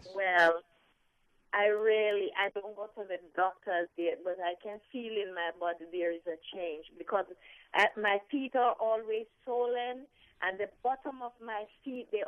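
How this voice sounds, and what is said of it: Jamaican accent. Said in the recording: “your Jamaican accent.”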